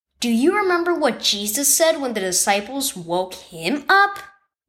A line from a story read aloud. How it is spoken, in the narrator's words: Mom asked